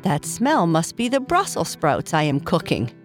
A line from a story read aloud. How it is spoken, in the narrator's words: Papa Bear said with a laugh